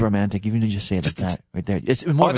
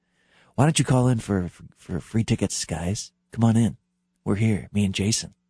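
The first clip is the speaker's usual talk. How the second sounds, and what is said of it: Announcer-style radio voice. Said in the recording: “That's the radio voice”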